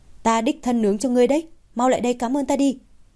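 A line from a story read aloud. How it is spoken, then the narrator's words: Loud call. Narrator (Vietnamese): Ưng lớn tiếng gọi, nói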